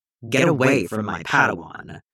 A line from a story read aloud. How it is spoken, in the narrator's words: both Mace and Plo snapped, eerily in sync